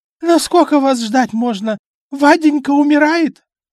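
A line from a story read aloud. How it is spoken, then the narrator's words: Hoarse drunken shout. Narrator (Russian): тут же закричала пропитым хриплым голосом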